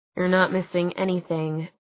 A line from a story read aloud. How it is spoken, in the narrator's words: Clary muttered